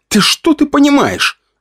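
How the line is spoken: Snapping retort. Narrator (Russian): огрызнулся я

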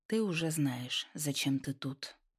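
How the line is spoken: Calm man, hidden sternness. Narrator (Russian): произнес мужчина, голос которого звучал спокойно, но от него веяло скрытой строгостью

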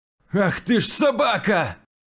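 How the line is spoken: Furious shout. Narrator (Russian): Яростно крикнул Вячеслав

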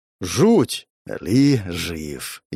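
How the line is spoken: Exhaled. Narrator (Russian): выдохнул

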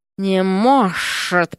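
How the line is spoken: Hissing. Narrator (Russian): прошипела госпожа

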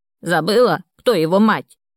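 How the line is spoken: Barking. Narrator (Russian): рявкнула Фёкла

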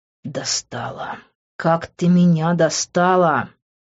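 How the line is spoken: Groaning. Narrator (Russian): простонал я

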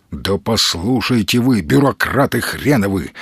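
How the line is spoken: Angry. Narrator (Russian): зло проговорил Маломальский

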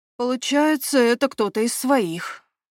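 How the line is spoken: Sigh. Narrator (Russian): вздохнул Патрик

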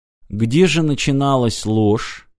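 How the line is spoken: Quiet question. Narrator (Russian): тихо спросил Мартин

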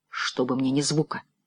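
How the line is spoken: Whisper. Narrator (Russian): шепнул Винс

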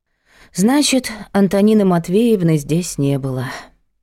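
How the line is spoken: Sighing summary. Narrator (Russian): вздохнув, подытожила Надя

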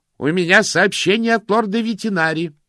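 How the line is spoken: Shouting. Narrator (Russian): прокричал тот

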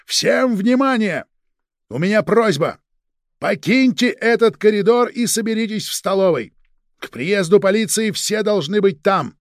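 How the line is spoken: Loud shout. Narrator (Russian): Полковник громко крикнул

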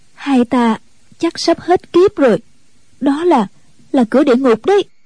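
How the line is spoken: Trembling. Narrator (Vietnamese): Ân Tố Tố run run nói

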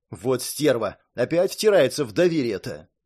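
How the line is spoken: Angry hiss. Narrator (Russian): прошипела Розмари, бросая на Брэндолин гневные взгляды

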